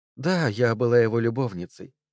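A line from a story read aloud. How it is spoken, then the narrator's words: Regretful sigh. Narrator (Russian): вздохнула Одри с сожалением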